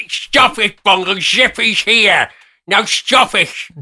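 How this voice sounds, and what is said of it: Puppet character voice. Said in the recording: “What about your zippy?”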